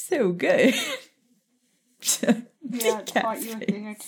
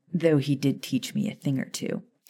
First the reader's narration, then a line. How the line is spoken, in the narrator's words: stated calmly